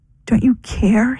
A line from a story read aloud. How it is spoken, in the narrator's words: He pleaded